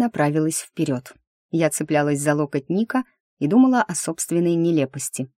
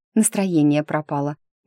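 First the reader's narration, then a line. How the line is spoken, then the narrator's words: Muttered. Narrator (Russian): буркнула я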